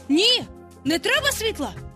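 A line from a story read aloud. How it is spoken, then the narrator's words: Shout. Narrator (Ukrainian): крикнув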